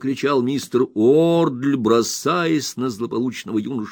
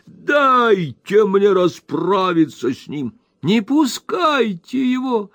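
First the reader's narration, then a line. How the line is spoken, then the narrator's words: Women shrieking. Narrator (Russian): завизжали все женщины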